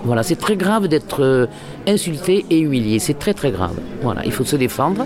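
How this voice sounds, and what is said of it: Southern French accent. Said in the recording (French): “je suis dans un créneau très populaire avec cet accent ... des gens du Sud ... mon accent”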